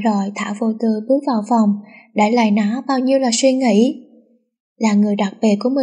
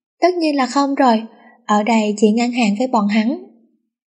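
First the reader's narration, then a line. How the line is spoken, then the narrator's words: Laughing speech. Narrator (Vietnamese): Nó bật cười vinh vào nói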